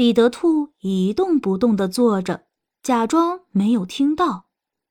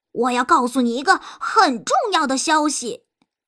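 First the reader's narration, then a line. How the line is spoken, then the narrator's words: Shouting. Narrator (Chinese): 他大喊着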